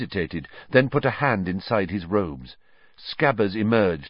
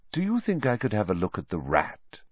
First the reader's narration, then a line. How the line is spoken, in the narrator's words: said, evenly